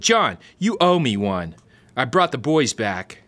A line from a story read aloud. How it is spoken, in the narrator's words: Maniac shouted